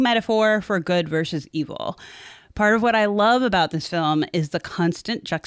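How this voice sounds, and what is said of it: Usual voice. Nothing is said of it.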